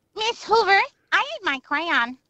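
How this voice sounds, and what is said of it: Impression of Ralph Wiggum. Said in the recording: “naughty little thing from The Simpsons ... Ralph Wiggum”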